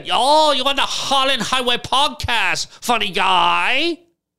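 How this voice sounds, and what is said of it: Put-on Asian accent. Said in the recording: “I could even do a, like an Asian accent”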